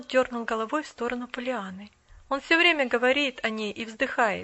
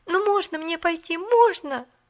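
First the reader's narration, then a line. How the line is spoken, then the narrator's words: Pleading. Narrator (Russian): Взмолилась Поллианна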